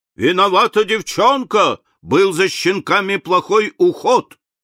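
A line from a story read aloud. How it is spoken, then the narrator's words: Shouting. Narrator (Russian): Грей закричал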